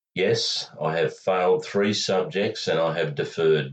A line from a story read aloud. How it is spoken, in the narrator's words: Vitkovic said